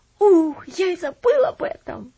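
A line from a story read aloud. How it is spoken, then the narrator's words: Exclamation. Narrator (Russian): воскликнул Джосс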